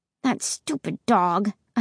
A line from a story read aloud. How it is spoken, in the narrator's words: I muttered